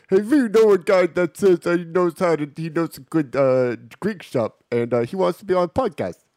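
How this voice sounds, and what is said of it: Imitates another person's voice. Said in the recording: “this is my impression of Stevie.”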